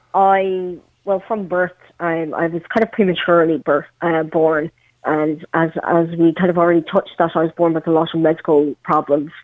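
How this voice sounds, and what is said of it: Irish Meath accent. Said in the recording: “a good old Meath accent, which you have”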